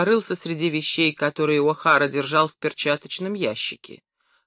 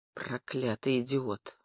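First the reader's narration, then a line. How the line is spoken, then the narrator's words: Gruff mutter. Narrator (Russian): буркнул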